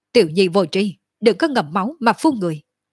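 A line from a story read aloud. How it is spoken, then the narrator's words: Angry. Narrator (Vietnamese): Cổ Trường Phong giận dữ nói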